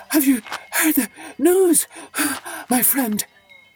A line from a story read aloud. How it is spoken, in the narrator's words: panted Sipo